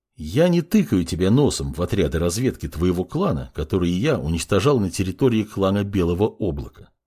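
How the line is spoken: Forced even calm. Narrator (Russian): начал говорить подмастерье, стараясь держать тон голоса ровно и спокойно

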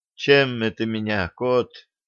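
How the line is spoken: Quiet question. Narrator (Russian): тихо спрашивает Тяпа

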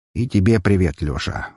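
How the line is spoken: Sighing. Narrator (Russian): вздохнул Роман

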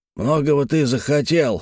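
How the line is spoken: Laughing loudly. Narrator (Russian): захохотал Испольнов

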